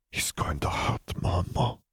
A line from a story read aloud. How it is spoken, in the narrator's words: breathed